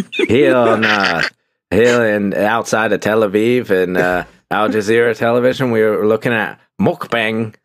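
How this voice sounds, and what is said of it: Put-on transatlantic BBC journalist accent. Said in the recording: “what accent was that? ... I think it was my BBC accent. ... Like, was it 1930s aristocrat, like American aristocrat, or was it BBC journalist? ... Transatlantic BBC.”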